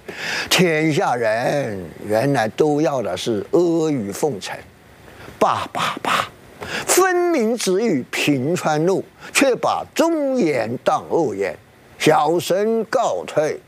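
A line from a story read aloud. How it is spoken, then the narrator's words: Sighing. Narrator (Chinese): 吴用边走边叹气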